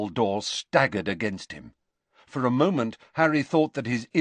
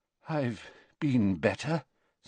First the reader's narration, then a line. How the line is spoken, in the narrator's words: said Dumbledore weakly